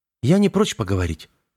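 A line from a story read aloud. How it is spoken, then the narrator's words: Calm reply. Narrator (Russian): спокойно отозвался Веснин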